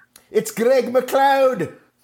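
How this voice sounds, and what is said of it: Put-on Scottish accent. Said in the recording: “That's an excellent Scottish accent. ... That's pretty good, right? ... I've heard worse, put it that way.”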